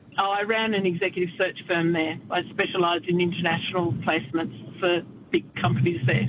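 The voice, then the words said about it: Australian accent. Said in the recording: “as an Aussie ... they just liked listening to my accent”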